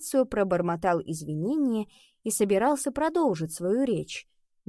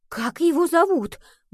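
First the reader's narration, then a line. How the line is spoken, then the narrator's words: Agitated question. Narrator (Russian): взволнованно спросила Рия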